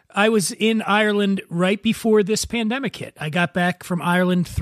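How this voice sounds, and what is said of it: Usual voice. Nothing is said of it.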